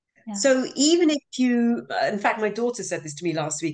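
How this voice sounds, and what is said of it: Soothing non-North American accent. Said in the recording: “so soothing ... I'm sure people from North America say this too all the time, but you have such a beautiful, beautiful accent ... And just your own intonation as well.”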